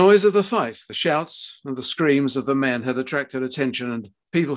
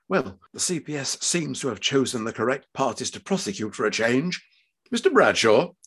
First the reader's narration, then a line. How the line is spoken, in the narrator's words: Middle-aged and jowly, she was heard by Alex and his father to whisper to her colleagues